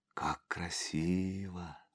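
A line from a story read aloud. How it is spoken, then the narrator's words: Whisper. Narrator (Russian): прошептала Наташа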